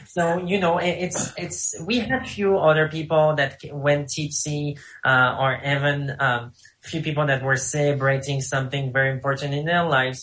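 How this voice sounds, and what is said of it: French accent. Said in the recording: “with my French accent”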